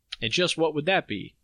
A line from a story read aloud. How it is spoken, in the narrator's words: I asked